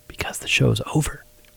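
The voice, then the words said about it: Whispering. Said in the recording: “Why are we whispering? ... How did the Truck Show podcast turn into ASMR?”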